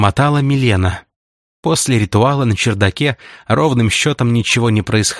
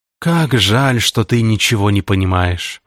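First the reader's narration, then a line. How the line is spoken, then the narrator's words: Sighing. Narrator (Russian): вздохнул Кусанов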